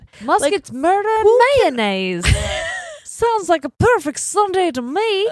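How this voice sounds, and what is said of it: Put-on accent. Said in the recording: “I like that accent”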